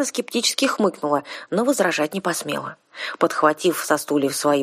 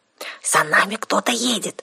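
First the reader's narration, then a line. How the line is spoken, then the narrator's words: Whisper. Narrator (Russian): прошептала Арсана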